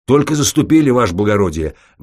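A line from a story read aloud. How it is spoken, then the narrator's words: Loud barked report. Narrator (Russian): гаркнул старший по караулу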